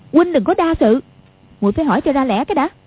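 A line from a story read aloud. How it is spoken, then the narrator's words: Angry. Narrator (Vietnamese): Quách Phù đang tức giận … nói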